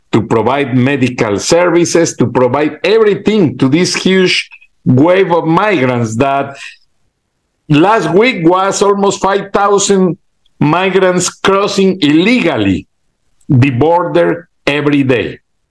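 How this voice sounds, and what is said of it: Broken non-native English accent. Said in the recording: “You can catch my broken accent.”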